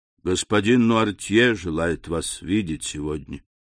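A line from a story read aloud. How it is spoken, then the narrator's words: Quiet speech. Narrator (Russian): тихо сказал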